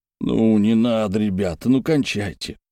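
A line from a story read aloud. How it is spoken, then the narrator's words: Tired speech. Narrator (Russian): устало проговорил Тумаркин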